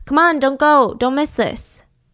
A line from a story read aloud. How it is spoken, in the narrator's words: someone shouting at him